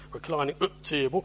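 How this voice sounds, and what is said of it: Put-on Yorkshire accent. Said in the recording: “It works if you use a Yorkshire accent”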